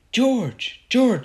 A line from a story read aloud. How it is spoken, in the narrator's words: she shouted